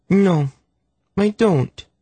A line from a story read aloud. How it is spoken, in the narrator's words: she replied in a sulky little voice